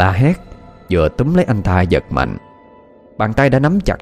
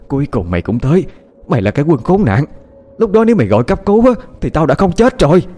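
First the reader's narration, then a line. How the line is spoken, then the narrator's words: Woman screaming impatiently. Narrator (Vietnamese): người phụ nữ như không thể chờ đợi thêm được nữa, cô ta lao ra gào thét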